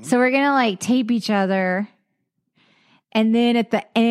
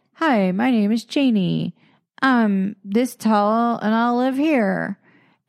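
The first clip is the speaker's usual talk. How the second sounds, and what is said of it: Strange put-on voice. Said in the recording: “you did a strange voice.”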